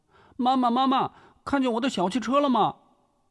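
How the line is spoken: Young child calling out. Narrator (Chinese): 年仅5岁的次子建成…对王碧奎喊道

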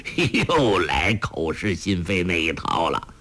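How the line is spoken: Laughing. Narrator (Chinese): 洪七公笑道

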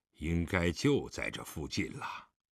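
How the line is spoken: Muttering. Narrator (Chinese): 狄仁杰嘴里嘟囔道

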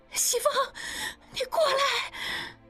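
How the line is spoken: Weak, sudden cry. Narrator (Chinese): 依依的声音越来越无力，这时忽然叫道

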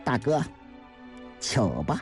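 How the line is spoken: Cold laugh. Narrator (Chinese): 张杰冷冷地笑道

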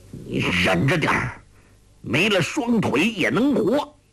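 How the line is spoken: Through gritted teeth. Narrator (Chinese): 欧阳锋咬牙说

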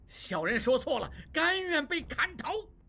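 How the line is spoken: Loud. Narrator (Chinese): 望柏大声说

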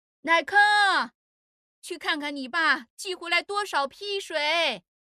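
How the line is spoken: Shouting. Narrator (Chinese): 郑陈氏冲着乃坑的背影喊

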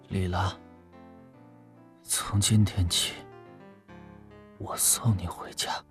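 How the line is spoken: Drunken, hoarse but clear. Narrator (Chinese): 秦山的醉话嘶哑而干涩，但很清晰

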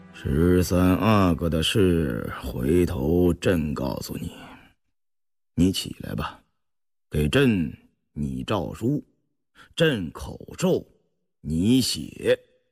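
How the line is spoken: Sighing. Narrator (Chinese): 康熙叹息了一声 一边漫步踱着，一边说道

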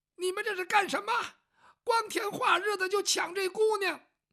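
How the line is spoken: Old woman shouting. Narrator (Chinese): 老太太进来之后就喊

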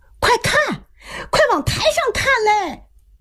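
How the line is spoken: Someone shouting. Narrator (Chinese): 外边有人喊

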